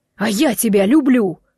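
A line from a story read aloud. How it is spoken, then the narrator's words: Yelling man. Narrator (Russian): в тон ей орал мужчина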